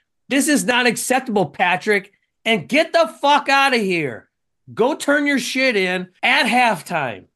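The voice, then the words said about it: Angry yelling. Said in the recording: “Oh, I'm yelling again.”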